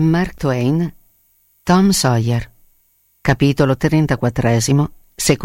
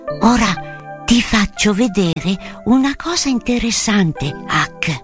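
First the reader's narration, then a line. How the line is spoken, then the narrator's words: Whispered. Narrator (Italian): sussurrò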